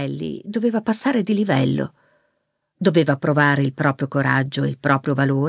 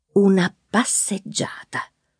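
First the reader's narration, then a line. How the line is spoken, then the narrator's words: Whispering to herself. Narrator (Italian): sussurrò a se stessa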